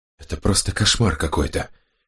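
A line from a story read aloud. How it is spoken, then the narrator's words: Whisper. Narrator (Russian): прошептала Кинвара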